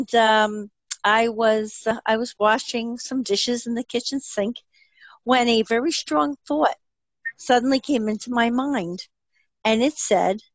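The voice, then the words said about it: New Jersey accent. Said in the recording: “as you can tell from my accent, I'm from New Jersey”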